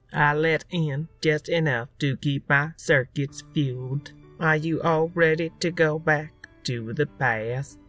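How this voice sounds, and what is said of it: Ridiculous put-on accent. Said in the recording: “that ridiculous accent”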